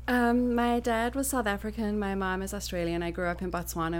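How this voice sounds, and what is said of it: Speaks with a non-American accent. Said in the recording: “has an accent”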